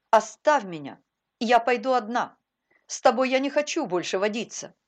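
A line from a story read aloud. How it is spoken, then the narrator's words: Stern command. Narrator (Russian): строго приказала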